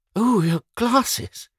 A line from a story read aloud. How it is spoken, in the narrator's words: cried Fayed